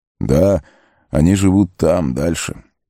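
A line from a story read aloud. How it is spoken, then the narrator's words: Wistful sigh. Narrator (Russian): Арагорн вздохнул, словно припомнив что-то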